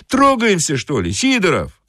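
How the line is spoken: Shout. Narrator (Russian): крикнул кондуктор

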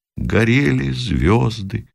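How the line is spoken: Quiet sad distant voice. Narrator (Russian): из пехотного окопа тихо и печально раздалось

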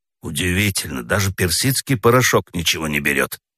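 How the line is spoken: Grumbling. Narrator (Russian): проворчал Федя

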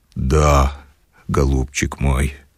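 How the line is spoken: Bewildered mumble. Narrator (Russian): растерянно промычал Филипп Филиппыч

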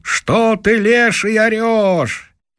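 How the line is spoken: Shout from below. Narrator (Russian): А как голос-то снизу крикнул

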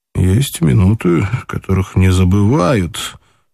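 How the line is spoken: Mutter. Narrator (Russian): пробормотал он

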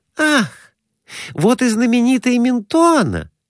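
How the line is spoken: Exclamation. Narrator (Russian): воскликнула Глафира Семеновна

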